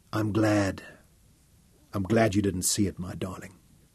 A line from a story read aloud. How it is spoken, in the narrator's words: he whispered to her